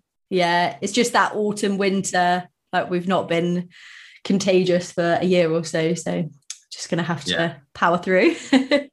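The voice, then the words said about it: Hoarse voice. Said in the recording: “You'll have to excuse my hoarse voice because I've had this this little cold, so not quite sounding myself.”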